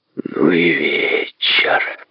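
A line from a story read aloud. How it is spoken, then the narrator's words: Groaning. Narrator (Russian): простонал он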